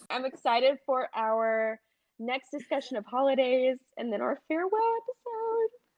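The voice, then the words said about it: Unusually high-pitched emotional voice. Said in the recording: “my voice got so high ... It was emotion”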